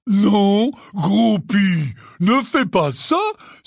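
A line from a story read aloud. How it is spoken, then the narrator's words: Exclaiming. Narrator (French): s'exclama Hagrid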